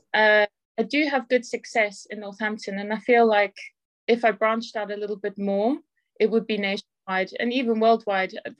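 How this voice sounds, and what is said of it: South African accent. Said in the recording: “your accent is, I don't think it's local ... I'm originally from South Africa”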